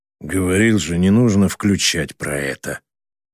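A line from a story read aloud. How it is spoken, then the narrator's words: Through gritted teeth. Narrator (Russian): процедил он Вершбицкой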